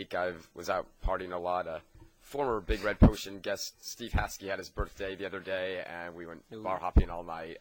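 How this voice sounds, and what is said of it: Hoarse, coarse voice. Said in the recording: “my voice is a bit coarse this week... my voice is still recovering from that”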